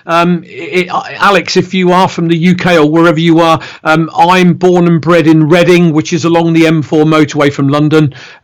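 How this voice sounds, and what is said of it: English West Country-sounding accent. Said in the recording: “everybody thinks I've got a Bristolian accent”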